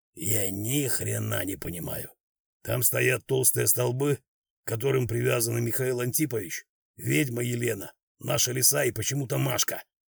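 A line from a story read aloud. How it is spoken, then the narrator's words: Whispering. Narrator (Russian): зашептал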